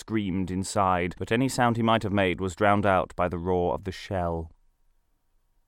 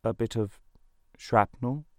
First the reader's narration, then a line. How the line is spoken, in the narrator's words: replied, faltering